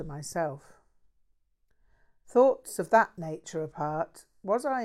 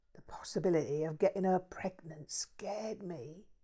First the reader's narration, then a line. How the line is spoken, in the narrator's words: he whispered, absolutely shitless